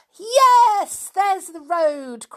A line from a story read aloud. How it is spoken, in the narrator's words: cried Julian suddenly